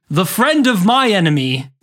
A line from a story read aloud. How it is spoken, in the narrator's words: the uncle roared